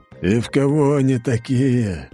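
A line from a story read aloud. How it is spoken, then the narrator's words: Sighing. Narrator (Russian): вздохнул император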